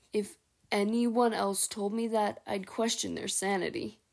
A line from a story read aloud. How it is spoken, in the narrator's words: Tiergan chuckled